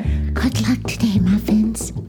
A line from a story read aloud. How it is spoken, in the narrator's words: she whispered into the air